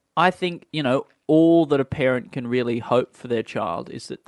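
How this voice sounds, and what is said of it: Usual voice. Nothing is said of it.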